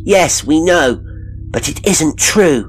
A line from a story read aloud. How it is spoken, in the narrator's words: they cried